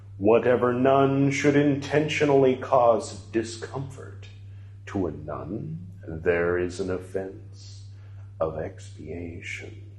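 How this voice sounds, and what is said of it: Deliberately deep reading voice. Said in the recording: “every time I'm reading, quoting Lord Buddha, I always do this deep voice.”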